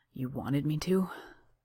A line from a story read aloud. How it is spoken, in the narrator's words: Johnny mumbles